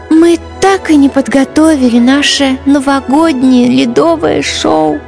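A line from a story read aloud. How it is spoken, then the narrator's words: Heavy sigh. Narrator (Russian): Тяжело вздохнула Ангелина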